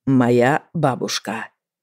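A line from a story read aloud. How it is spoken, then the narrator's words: Slow. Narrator (Russian): сказал он медленно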